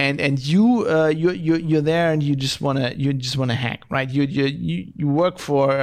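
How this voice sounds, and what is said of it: Usual voice. Nothing is said of it.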